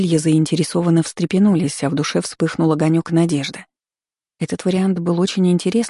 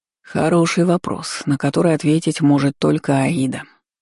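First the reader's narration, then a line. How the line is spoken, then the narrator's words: Sighing. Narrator (Russian): вздохнул Суарес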